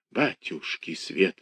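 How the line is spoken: Muffled mutter behind door. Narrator (Russian): бормотала за дверью нянька

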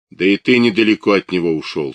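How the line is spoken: Stern interruption. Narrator (Russian): строго оборвал его Евстигнеев

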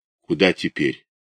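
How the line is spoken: Quiet question. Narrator (Russian): тот тихо спросил

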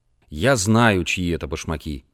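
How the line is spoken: Gloomy soldier's voice. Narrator (Russian): мрачно сказал другой солдат

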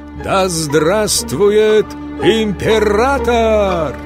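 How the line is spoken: Crowd shouting in unison. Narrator (Russian): все полки крикнули в один голос

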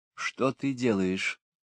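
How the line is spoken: Frightened whisper. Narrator (Russian): испуганно прошептала Эннет

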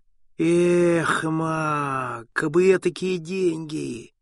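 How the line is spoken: Dejected sigh. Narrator (Russian): угнетенно вздохнул

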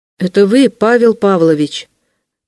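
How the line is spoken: Very loud repetition. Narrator (Russian): повторил он громче, и даже так громко, что если б Павел Павлович спокойно спал на своей постели, то непременно бы проснулся

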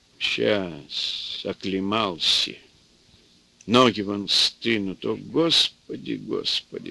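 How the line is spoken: Old man sighing. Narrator (Russian): старик вздохнул

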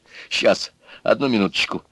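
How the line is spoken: Plain. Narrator (Russian): сказал он

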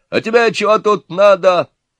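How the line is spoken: Yelled. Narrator (Russian): заорал отец невесты

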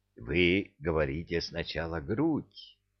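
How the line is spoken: Gentle encouraging. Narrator (Russian): мягко ввязался чиновник, как бы желая ободрить новичка

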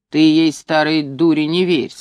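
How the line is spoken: Stern instruction. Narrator (Russian): строго учил он

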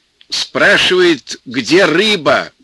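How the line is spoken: Loud speech. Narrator (Russian): громко сказал Петька

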